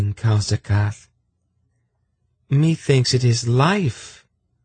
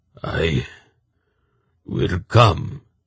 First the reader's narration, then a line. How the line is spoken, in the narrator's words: he croaked